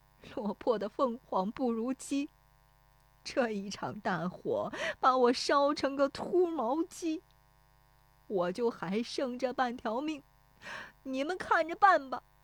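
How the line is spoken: Crying. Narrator (Chinese): 石有福对着烧塌的房子哭说

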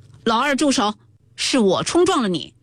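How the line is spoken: Shouting. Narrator (Chinese): 贾云叫道

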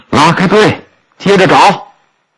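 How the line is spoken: Loud yelling. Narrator (Chinese): 包顺贵大喊大叫着

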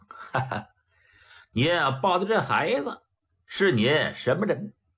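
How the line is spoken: Laughing. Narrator (Chinese): 毕振远一笑

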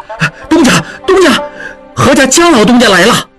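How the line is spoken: Shouting. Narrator (Chinese): 小顺喊道

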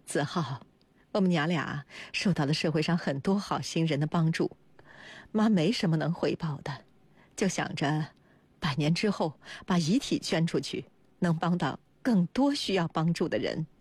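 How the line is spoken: Smiling. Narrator (Chinese): 高文霞笑着说

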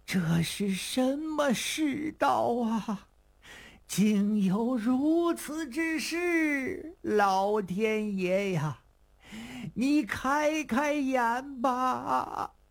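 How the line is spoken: Old man crying. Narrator (Chinese): 老头在这正哭着呢

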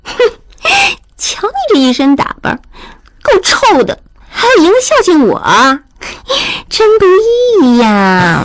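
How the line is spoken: Woman's lewd laugh. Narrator (Chinese): 那妓女一阵浪笑

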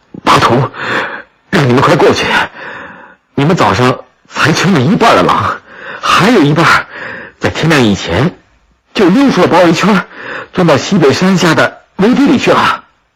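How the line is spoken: Breathless, urgent. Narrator (Chinese): 马官布赫气喘吁吁地对乌力吉和包身贵说

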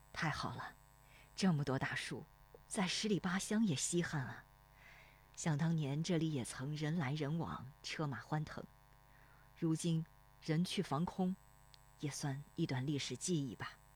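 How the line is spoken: Sighing, wistful. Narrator (Chinese): 罗生边打量边叹息

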